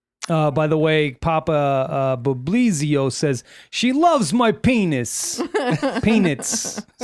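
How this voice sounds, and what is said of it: Put-on New York Italian accent. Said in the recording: “I got the Italian. That's not really the Boston. ... you're more of like a I'm New York Italiano.”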